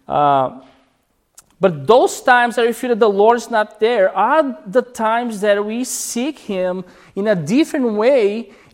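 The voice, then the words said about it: Speaker's own accent. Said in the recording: “especially because of my accent”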